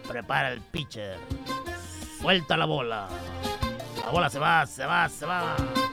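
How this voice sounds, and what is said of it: Imitates a sports announcer. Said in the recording (Spanish): “imitación de los jugadores de los Leones. ... Los cronistas.”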